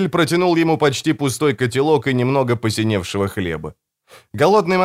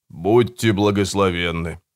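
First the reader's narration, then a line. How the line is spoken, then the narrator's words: Mumbling with full mouth. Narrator (Russian): промямлил монах, набив рот заплесневелым хлебом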